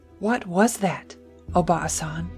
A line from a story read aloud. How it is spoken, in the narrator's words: whispered, her voice trembling